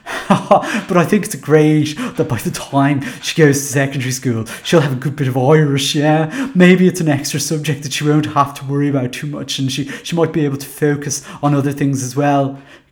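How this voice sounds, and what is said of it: Put-on voice of a school parent. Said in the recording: “put on my Gael school voice”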